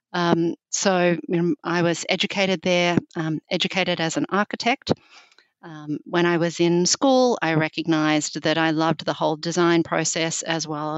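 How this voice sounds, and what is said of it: Australian accent. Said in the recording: “clearly I'm a Southern girl. You can tell I have a funny accent. I'm from deep, deep south, South Australia.”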